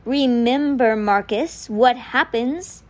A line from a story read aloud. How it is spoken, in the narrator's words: it repeated slowly